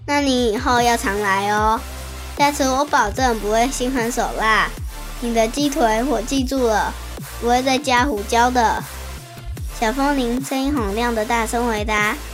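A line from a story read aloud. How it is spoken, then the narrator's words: Smiling reply. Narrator (Chinese): 鸡腿饭老板笑了笑，回答说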